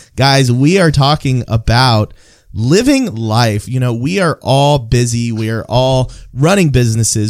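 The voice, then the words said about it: Voice sounds sick, under the weather. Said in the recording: “if you can't hear from my voice, I'm a little bit under the weather myself”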